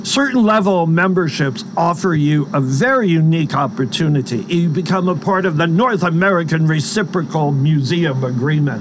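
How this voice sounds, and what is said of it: American East Coast accent. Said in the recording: “I'm from back east, as you can probably tell from my accent.”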